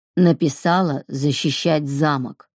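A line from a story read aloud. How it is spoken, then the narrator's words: Growled through teeth. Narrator (Russian): прорычал он сквозь зубы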